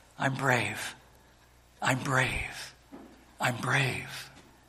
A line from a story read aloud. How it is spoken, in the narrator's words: the boy quietly repeating the phrase